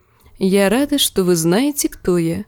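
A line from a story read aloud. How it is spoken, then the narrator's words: Soft. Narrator (Russian): мягко заметила Дэнни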